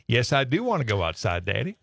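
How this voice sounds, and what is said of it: Dog voice with Southern accent. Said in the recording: “their dogs answer them back in some kind of a dog voice. In a voice of some kind, a human sounding voice ... she had a bit of a southern accent ... she answers in a Southern accent”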